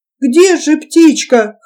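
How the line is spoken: Whimpering. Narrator (Russian): хныкал он

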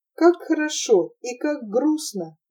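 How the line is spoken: Sighing. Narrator (Russian): вздохнула она

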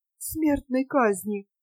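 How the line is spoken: Slow repetition. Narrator (Russian): медленно повторяла она

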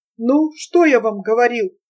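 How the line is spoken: Delighted exclamation. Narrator (Russian): восхищенно воскликнул Потоцкий

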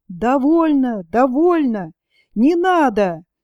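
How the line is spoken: Several voices shouting insistently. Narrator (Russian): настойчиво прокричало несколько голосов

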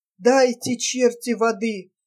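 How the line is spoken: Parched moan, woman. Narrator (Russian): Горло пересохло, стонала полураздетая женщина

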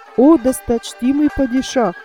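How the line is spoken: Plain, servant. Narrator (Russian): ответил слуга

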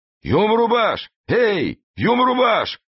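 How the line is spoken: Powerful nearby yelling. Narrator (Russian): орал где-то неподалеку мощный голос

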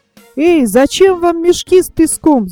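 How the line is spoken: Shouted. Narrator (Russian): закричал Топик

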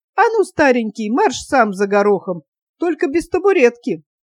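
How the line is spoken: Calm. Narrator (Russian): Ганна спокойно сказала

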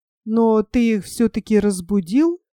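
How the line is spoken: Timid question. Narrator (Russian): робко спросил Нильс

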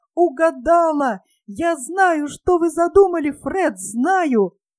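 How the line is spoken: Wild laughing exclamation. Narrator (Russian): пухленькая сестричка племянницы расхохоталась вдруг так же неистово и воскликнула

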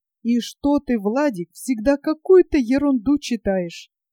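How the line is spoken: Very dejected question. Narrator (Russian): Совсем уже унылым голосом спросил

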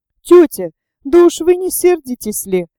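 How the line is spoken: Playful babbling. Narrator (Russian): пролепетала она с какой-то легкомысленной игривостью

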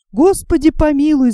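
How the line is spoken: Girls screaming together. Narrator (Russian): закричали девушки

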